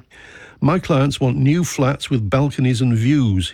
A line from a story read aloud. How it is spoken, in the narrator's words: he said